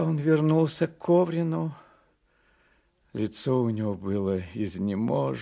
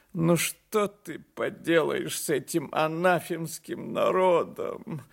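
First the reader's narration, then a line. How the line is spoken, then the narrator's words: Tearful voice. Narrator (Russian): сказал он плачущим голосом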